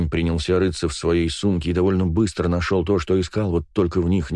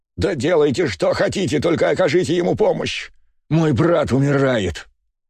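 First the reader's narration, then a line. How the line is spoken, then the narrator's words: Shouting. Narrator (Russian): закричал Леонид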